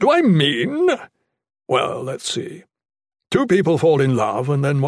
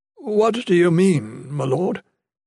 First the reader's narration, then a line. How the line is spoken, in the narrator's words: Raphael asked nervously